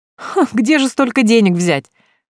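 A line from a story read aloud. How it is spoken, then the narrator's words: Ringing laugh. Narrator (Russian): звонко засмеялась Эля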